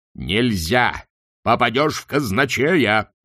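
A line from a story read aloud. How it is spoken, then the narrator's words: Yelling. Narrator (Russian): заорал Чудакулли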